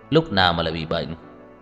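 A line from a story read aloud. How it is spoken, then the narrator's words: Cold. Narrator (Vietnamese): Tưởng Thiên Lỗi lạnh lùng nói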